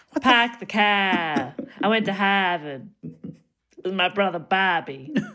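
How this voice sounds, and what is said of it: Boston accent dropping R sounds. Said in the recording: “How weird would it be to speak without pronouncing your R's? ... You sound so ridiculous. ... Such a silly accent.”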